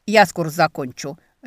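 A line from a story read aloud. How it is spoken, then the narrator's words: Barked. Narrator (Russian): рявкнул некромант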